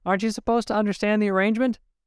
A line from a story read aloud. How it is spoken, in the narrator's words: He barked